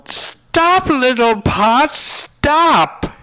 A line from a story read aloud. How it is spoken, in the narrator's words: she yelled